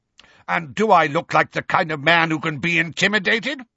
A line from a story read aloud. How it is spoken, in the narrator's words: barked Uncle Vernon